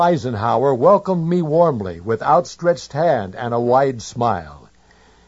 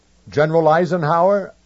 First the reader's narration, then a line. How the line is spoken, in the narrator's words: I said